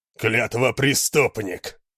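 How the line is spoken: Growling. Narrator (Russian): прорычал Хьялмар

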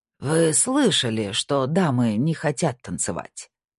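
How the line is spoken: Conciliatory tone. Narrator (Russian): произнес Хоровец примирительным тоном

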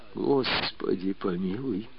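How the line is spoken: Pleading. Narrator (Russian): взмолился Степан

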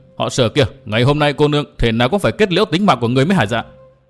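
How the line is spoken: Angry scolding shout. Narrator (Vietnamese): quát mắng

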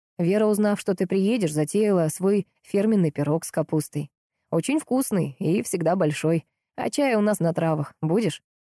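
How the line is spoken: Even, flat neutral tone. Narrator (Russian): Он говорил ровным тоном, как о чем-то постно-нейтральном

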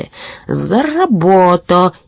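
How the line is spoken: Furious shout. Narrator (Russian): яростно крикнул волшебник

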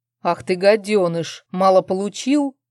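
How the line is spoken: Growled. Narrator (Russian): прорычал Арман

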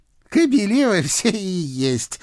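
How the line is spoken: Declaring after laughter. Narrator (Russian): отсмеявшись, заявила Баба-Яга

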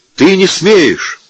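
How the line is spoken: Shouting. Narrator (Russian): закричал цыган

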